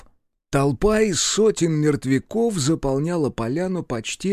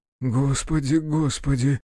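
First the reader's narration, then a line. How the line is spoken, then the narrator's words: Whispering. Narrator (Russian): зашептал барон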